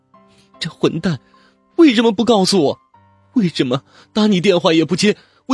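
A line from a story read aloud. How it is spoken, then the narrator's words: Tearful choked voice. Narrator (Chinese): 黄七月已经哭成了泪人 哽咽的说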